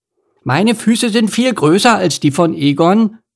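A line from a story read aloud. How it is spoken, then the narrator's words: Called out. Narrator (German): rief Emil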